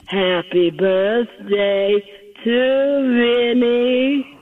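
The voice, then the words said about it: Imitates another person's voice. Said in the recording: “my best Marilyn impersonation ... That's very good. Keep your day job.”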